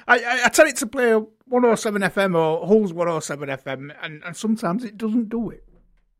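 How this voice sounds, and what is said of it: Hull accent. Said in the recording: “you have a Hull accent. I have trouble with mine.”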